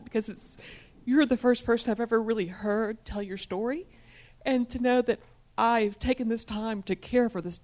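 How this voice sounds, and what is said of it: Choked-up, emotional voice. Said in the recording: “I get a little choked up,”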